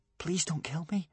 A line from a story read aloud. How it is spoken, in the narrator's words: whispered Hiccup